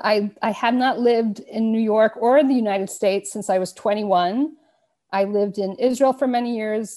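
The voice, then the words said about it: Slight New York accent. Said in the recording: “There's a little bit of an accent. I'm going to say Brooklyn or something ... I grew up on Long Island, that's correct. And I probably still pronounce a few words”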